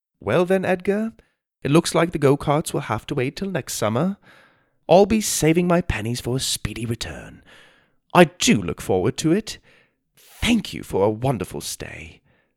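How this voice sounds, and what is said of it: British accent. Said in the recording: “the sound of his British accent ... again surprising his parents with his accent”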